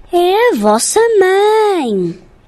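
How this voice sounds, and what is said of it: Imitates a mother goat's voice. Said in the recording (Portuguese): “imitando a voz da cabra”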